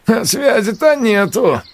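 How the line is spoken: Snort while chewing. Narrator (Russian): хмыкнул Хрящ, не переставая жевать

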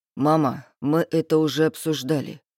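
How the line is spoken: Tired answer. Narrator (Russian): устало отвечает Арслан

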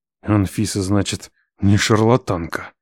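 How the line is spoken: Hissed through teeth. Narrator (Russian): сквозь зубы прошипел я

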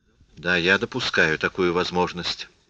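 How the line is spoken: Calm. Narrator (Russian): спокойно сказала Лис

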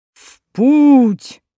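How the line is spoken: Booming in the ears. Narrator (Russian): прогудело в ушах

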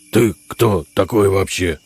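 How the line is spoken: Gruff barking. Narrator (Russian): рявкнул волк

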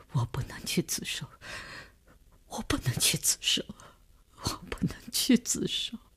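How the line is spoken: Sobbing, breaking down, repeating. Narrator (Chinese): 李大公哭得悲悲切切，他的精神看上去已经濒于崩溃，只是不停地重复着

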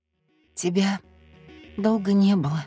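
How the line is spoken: Hoarse strained words. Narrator (Russian): хрипло выдавила

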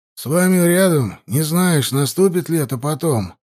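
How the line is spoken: Displeased grumble, mage. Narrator (Russian): недовольно пробурчал маг

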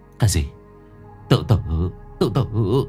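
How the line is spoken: Stammering, speechless. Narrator (Vietnamese): Bốn ấp úng nói không lên lời

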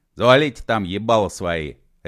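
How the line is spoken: Barking. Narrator (Russian): рявкнул он

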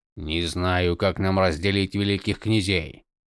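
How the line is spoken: Grumbling. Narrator (Russian): проворчал Долинар

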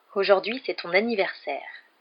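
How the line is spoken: Contemptuous. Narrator (French): lança Dudley d'un ton méprisant

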